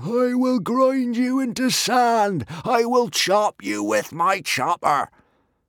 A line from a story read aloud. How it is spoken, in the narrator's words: Norbert the Nutjob found him in his dreams, screaming